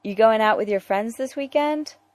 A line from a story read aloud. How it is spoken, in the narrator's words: Dick asked Tim